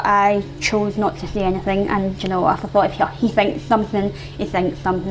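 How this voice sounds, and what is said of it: Scottish accent. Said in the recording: “my Scottish accent”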